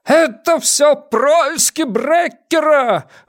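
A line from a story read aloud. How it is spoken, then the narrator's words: Yelling. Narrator (Russian): вопил Ван Эк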